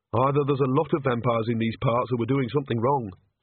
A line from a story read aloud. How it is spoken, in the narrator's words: said Agnes flatly